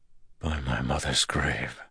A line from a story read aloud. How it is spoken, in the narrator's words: Rand whispered